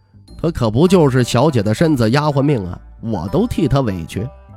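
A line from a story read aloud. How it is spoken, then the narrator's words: Laughing. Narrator (Chinese): 徐凤年笑着说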